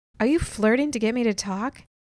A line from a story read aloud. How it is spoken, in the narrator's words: I laughed